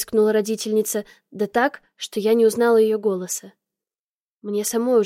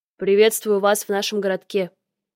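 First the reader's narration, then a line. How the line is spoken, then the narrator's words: Deep male voice. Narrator (Russian): пробасил мужчина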